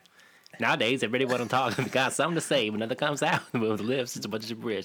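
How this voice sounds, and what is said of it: Imitates another person's rapping voice. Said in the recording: “I can do a pretty solid Eminem, though.”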